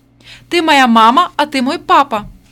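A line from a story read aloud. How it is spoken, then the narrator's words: Shouted. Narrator (Russian): Вера крикнула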